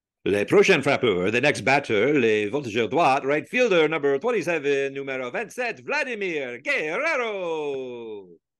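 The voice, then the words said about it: Bilingual stadium PA announcer impression. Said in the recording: “my impression of the Expos PA announcer introducing Vladimir Guerrero coming up to the plate ... apologies to our French listeners if I butcher any of this”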